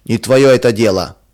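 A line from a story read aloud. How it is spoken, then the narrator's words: Rude reply. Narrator (Russian): грубо отвечал он жене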